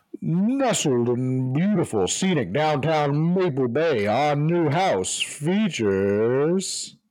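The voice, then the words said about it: Cheesy announcer voice. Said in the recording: “do my very best cheesy announcer voice”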